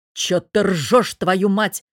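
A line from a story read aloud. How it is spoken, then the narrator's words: Bearded man barking. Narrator (Russian): рявкнул бородач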